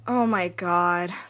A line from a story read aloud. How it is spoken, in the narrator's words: groaned